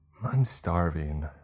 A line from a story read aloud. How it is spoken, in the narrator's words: one boy sighed